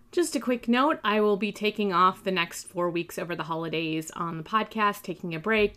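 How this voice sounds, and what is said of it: Slightly scratchy voice. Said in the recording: “I started out the month with a nasty sinus infection, which lasted for about 2 weeks. I'm still coughing and my voice is a bit scratchy”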